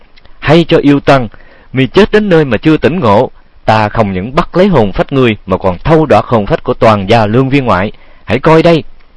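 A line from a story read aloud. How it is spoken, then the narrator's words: Shaky, blustering scream. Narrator (Vietnamese): bủng rủng tay chân, nhưng cũng làm già mà thét lên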